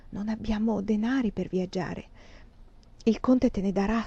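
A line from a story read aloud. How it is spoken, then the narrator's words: Whispered. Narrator (Italian): sussurrai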